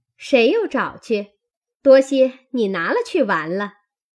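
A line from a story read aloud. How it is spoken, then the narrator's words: Laughing. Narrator (Chinese): 麝月笑道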